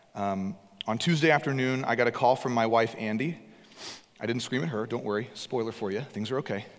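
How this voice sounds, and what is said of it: Damaged, partly lost voice. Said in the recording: “I apologized to you just a few minutes ago at the beginning of this for my voice. I'm not sick. I lost my voice on Tuesday from screaming, just as loud as I could.”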